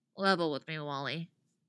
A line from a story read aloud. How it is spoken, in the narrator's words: Artemis says flatly